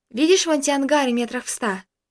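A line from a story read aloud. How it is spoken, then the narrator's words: Girl asking calmly. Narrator (Russian): девушка уже спокойным голосом спросила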